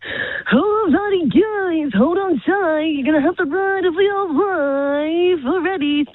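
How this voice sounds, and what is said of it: Carnival ride operator voice. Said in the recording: “my impersonation of a carny voice ... A carny, like a carnival person ... they put a bit of a unique voice”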